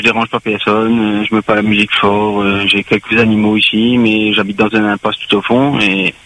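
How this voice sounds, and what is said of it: Creole accent in French. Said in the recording (French): “j'ai un accent créole.”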